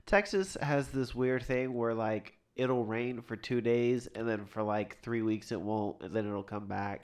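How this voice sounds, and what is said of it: Congested, stuffy-sounding voice. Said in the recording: “if you can tell by my voice, allergies are...”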